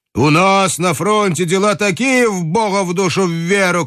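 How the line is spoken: Shouting. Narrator (Russian): кричал

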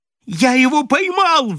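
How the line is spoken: Squeal. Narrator (Russian): взвизгнул Кэмп

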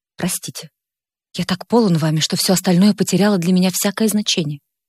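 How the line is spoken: Quiet, forced calm. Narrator (Russian): стараясь придать своему лицу спокойное выражение, тихо сказал

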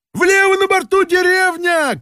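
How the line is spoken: Shouting. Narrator (Russian): крикнул Балаганов

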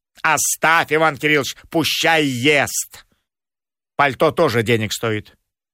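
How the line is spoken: Stern speech. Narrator (Russian): Домна Павловна строго говорила

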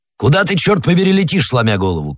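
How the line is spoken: Shouted. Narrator (Russian): крикнул Атос

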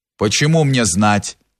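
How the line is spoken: Rough voice. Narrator (Russian): отвечал проезжий грубым голосом

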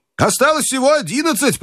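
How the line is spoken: Shouted. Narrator (Russian): прокричал Джо

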